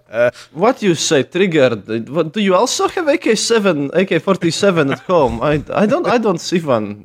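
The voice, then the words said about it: Exaggerated thick foreign accent. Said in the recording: “I don't actually have such a thick accent. I just put it on sometimes when I want to be extra funny.”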